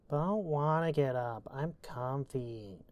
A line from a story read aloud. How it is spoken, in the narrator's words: Celia whined